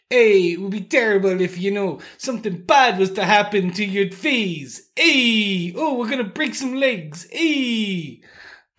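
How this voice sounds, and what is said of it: Put-on New Jersey gangster accent. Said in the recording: “my best Jersey gangster impression.”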